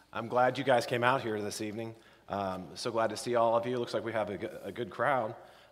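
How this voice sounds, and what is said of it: Hoarse, raspy voice. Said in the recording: “My voice has been steadily on the decline since Thursday... If I get really, really raspy”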